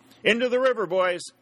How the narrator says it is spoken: shouted Sherburne

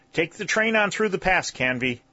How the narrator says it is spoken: shouted Colonel Newcomb

